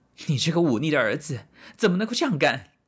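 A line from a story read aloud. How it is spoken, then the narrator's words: Mother, angry scolding. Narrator (Chinese): 母亲愤怒地骂道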